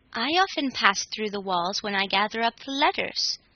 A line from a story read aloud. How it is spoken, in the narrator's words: said Kilter